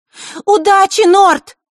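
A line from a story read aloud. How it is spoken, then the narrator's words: Sudden shout. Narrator (Russian): неожиданно выкрикнула Маришка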